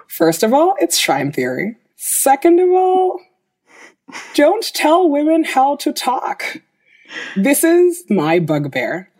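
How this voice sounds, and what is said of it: California Valley girl accent. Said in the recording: “I sound like a California Valley girl”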